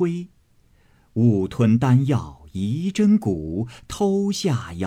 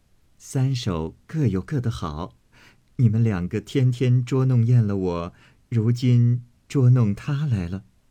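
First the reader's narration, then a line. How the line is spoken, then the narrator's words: Laughing. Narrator (Chinese): 宝钗笑道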